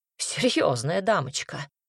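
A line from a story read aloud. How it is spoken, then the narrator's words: Wizard's snort. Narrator (Russian): фыркнул маг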